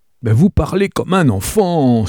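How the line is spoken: Terrified exclamation. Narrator (French): s'écria, épouvanté

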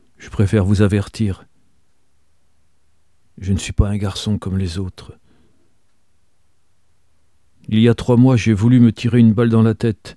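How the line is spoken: Sad yet proud. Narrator (French): dit-il tristement et fièrement

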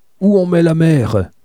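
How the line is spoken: Eldest brother yelling. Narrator (French): hurlait l'aîné à ses frères

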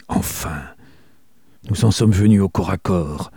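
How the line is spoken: Murmured. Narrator (French): murmura Holmes

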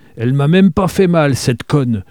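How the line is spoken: Grumbling. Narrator (French): bougonna-t-il

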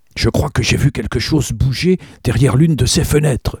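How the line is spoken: Exclaimed. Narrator (French): s'écria-t-il

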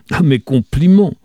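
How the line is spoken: Booming shout. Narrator (French): cria Webb, enfin, d'une voix de stentor

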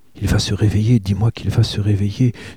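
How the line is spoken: Pleading. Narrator (French): suppliait Misia

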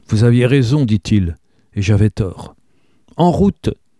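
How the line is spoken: Exclaimed. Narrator (French): s'exclama Elinor

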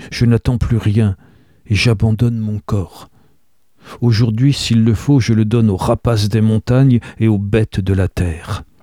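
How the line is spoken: Restrained growl. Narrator (French): gronda-t-il d'une voix contenue

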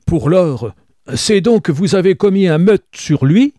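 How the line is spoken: Horrified exclamation. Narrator (French): s'écria Joseph, dans un geste d'horreur

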